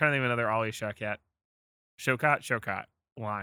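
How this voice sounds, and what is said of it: Usual voice. Nothing is said of it.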